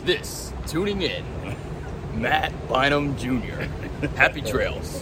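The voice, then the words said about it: Announcer-style radio voice. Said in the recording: “give us your best radio voice.”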